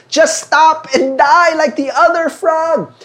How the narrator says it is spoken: once again, the other frogs kept yelling

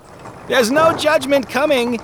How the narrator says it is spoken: he called out the window

